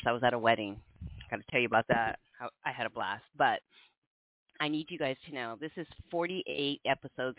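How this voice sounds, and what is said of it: Slightly hoarse voice. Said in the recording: “I sound like I'm a little hoarse.”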